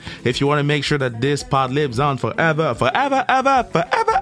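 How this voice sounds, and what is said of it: Sing-song voice cracking. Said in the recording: “my voice cracked. My voice cracked ... Damn, my voice cracked again”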